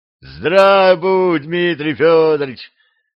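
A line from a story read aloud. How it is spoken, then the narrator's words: Joyful yell, nobleman. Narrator (Russian): радостно завопил кто-то из бояр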